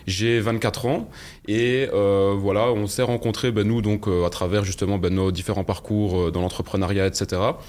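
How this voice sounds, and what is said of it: Belgian French accent. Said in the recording (French): “je viens de, Belgique, je pense que ça s'entend euh, à mon accent.”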